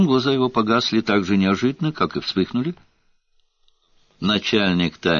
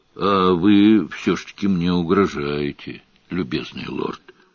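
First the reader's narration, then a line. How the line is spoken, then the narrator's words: Grumbled. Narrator (Russian): буркнул Сварог и сказал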